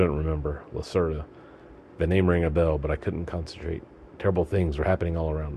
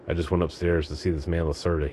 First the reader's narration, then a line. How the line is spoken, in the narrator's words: he said